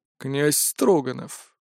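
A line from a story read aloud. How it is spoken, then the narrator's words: Half-assertive questioning tone. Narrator (Russian): полуутвердительным тоном поинтересовался Хирохита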